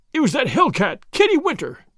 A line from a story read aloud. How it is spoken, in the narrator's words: he cried